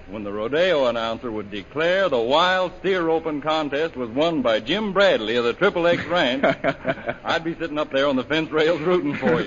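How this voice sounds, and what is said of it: Texas drawl. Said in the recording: “that old familiar drawl in your voice”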